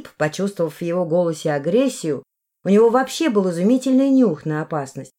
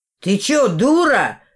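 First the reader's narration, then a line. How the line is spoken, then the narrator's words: Young man's panicked yell. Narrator (Russian): завопил парень с мокрыми штанами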